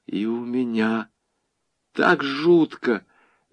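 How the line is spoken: Confiding whisper. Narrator (Russian): доверительно прошептала девушка

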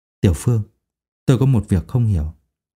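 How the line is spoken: Lowered, thoughtful voice. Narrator (Vietnamese): Thầy Châu … trầm tư một lúc … hạ giọng nói

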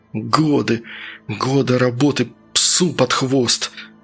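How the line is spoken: Angry, through gritted teeth. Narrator (Russian): злобно цедил он сквозь зубы

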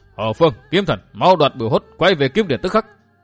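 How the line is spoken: Composed commanding shout. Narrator (Vietnamese): Dương Viễn trấn tĩnh ngay vừa hét

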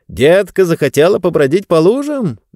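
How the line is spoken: Father's cheerful question. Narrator (Russian): весело спросил папа

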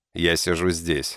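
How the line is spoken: Dry. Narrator (Russian): сказал я сухо

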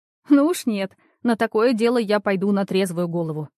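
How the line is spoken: Laughing. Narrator (Russian): рассмеялась Машка

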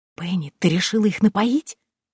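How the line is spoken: Whisper. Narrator (Russian): прошептала Дейзи

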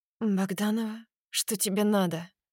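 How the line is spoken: Confused question. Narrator (Russian): спрашивает растерянно

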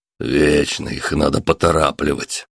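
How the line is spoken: Displeased grumble. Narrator (Russian): недовольно проворчал Роберт

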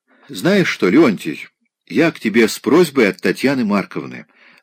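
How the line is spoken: Plain. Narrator (Russian): сказал Райский

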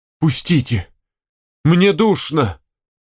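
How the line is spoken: Moaning. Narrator (Russian): простонала Степанида Ивановна

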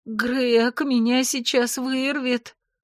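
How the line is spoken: Groan. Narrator (Russian): простонала

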